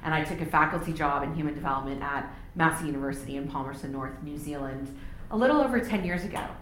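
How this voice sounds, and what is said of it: Texan American accent. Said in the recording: “You can probably tell from my accent, I'm not originally from New Zealand. So I was born and raised in Texas in the United States”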